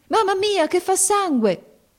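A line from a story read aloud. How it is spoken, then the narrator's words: Girl shouting. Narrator (Italian): gridò la ragazza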